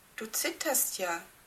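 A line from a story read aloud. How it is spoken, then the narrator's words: Plain. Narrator (German): sagte Claudia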